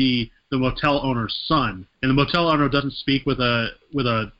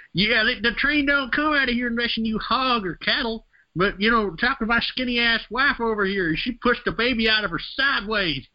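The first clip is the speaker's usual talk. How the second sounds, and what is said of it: Exaggerated hick rural accent. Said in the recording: “He's got this super hick accent compared to, like, his dad”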